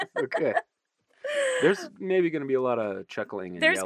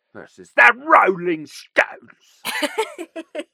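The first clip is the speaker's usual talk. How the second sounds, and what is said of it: Bad imitation of another person's voice. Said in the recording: “that was like a bad Michael Caine impression.”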